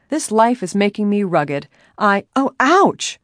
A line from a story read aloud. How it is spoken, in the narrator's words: she cried loudly